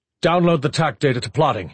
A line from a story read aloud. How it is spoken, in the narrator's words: he barked